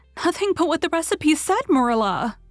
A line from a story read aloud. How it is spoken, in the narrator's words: cried Anne with a look of anguish